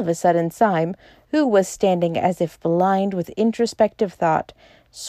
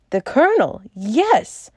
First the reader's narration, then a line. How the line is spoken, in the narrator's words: cried Bull